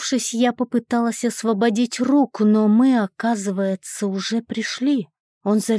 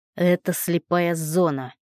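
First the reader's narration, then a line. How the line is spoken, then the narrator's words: Rough reply. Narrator (Russian): грубо ответил Ник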